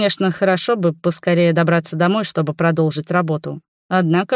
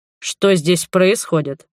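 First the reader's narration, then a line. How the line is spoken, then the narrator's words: Icy question. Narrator (Russian): ледяным голосом спросил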